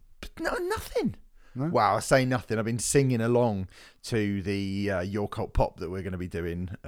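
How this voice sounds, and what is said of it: Crackly, quivery voice. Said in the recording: “I've got a little bit of a crackle in my voice... my voice is... it's a bit quivery”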